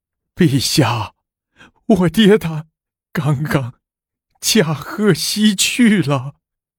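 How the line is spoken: Loud wailing. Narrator (Chinese): 狄光远……向大帝放声哭道

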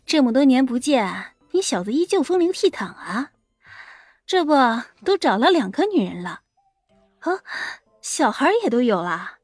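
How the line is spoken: Soft laugh. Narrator (Chinese): 他轻轻的一笑，说道

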